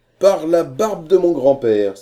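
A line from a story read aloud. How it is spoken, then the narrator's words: Exclaimed. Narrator (French): s'écria Corcoran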